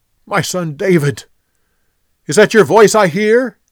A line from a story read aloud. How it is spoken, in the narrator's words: Saul yelled back